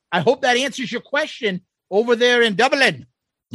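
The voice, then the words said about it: Bad put-on Irish accent. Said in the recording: “that's a fucking bad Irish accent”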